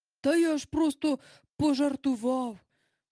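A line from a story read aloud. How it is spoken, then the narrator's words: Quick exclamation. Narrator (Ukrainian): одразу вигукнув містер Дарлінг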